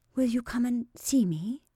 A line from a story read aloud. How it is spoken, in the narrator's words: whispered Sarah fondly